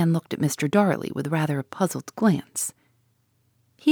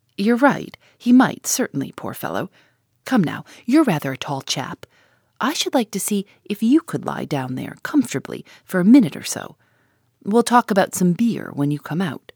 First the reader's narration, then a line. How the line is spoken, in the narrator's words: Gus laughed and said